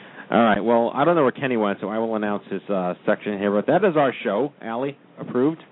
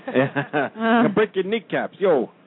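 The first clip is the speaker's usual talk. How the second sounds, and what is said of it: Weak attempt at Brooklyn accent. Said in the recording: “that was my horrible, I can't do a Brooklyn accent anymore”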